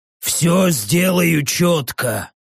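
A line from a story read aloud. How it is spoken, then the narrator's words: Hoarse, wheezing giant. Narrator (Russian): прохрипел гигант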